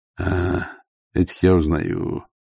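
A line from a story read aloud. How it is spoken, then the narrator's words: Gloomy. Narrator (Russian): мрачно сказал Ваймс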